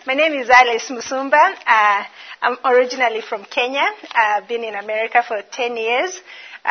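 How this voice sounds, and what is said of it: Non-American English accent. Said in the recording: “this accent is different from what you're used to hearing... Still not gotten the American accent.”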